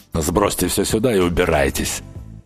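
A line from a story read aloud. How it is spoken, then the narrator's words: Gruff grunt. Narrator (Russian): буркнул Рич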